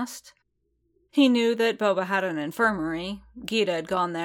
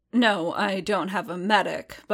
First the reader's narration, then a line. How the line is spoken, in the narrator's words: Boba grunted